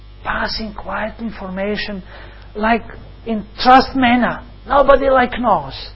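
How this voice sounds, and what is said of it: Usual voice. Nothing is said of it.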